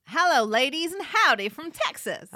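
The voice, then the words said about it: Put-on Texan accent. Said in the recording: “Are you going to do the whole thing in a Texan accent? ... That's a yes, then.”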